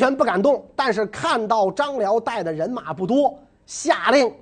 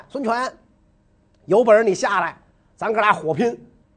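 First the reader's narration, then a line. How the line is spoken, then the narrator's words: Shouting. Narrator (Chinese): 张辽大声叫喊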